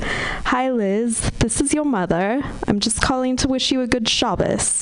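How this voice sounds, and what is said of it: Posh British woman's accent. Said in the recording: “She's a proper British Jewish woman. Like, her accent is so posh that I can only repeat it”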